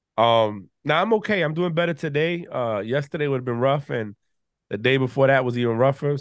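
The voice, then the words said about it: Stuffy, congested voice. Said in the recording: “I know I sound stuffy. I know I sound a little congested”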